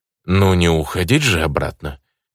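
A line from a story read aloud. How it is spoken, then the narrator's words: Grumbling. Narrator (Russian): проворчал я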